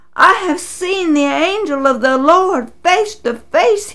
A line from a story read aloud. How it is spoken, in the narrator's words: cried